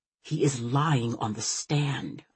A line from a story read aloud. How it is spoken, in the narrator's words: I whisper